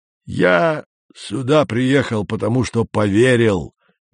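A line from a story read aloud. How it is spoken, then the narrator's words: Loud booming bass. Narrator (Russian): громко басил дядя Юра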